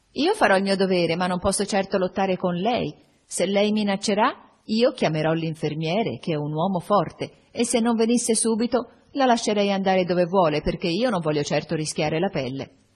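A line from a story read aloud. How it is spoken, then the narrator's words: Shrill shout. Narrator (Italian): si fece molto rossa e gridò con voce stridula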